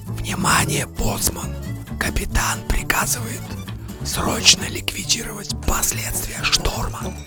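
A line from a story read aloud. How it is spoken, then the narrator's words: Old man whispering. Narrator (Russian): дед шептал мне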